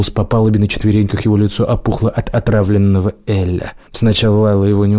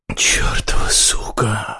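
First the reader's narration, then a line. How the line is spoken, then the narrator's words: Muttered in foreign language. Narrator (Russian): пробормотал по-арнезийски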